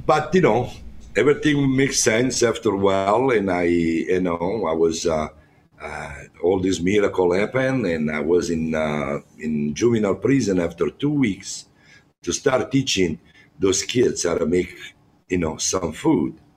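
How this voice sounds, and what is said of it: Strong foreign accent. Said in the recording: “my accent is very strong. My English is not that good.”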